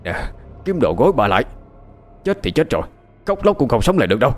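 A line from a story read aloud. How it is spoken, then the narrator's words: Shouted. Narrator (Vietnamese): quát lên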